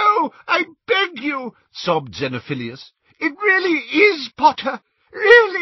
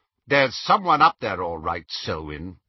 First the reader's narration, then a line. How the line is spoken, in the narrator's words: said the second man sharply